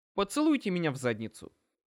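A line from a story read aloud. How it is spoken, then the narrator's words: Snapped. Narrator (Russian): огрызнулся я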